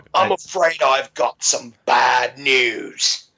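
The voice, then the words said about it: Put-on English accent. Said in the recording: “your Milwaukee English accent sounds much better than me just trying to make one up”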